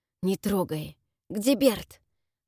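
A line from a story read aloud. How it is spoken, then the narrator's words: Hoarse wheeze. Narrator (Russian): прохрипел Джерард, облизывая пересохшие губы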